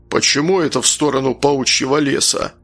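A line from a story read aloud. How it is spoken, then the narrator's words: Dwarf grumbling. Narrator (Russian): заворчал гном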